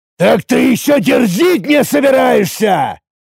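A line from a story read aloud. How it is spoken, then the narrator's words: Furious roar. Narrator (Russian): яростно взревел Тарак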